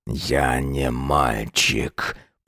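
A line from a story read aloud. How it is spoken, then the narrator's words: Growled reply. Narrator (Russian): прорычал он ей в ответ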